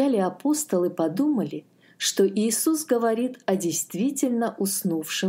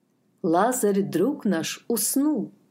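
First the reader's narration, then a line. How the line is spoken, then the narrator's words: Plain. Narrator (Russian): сказал Иисус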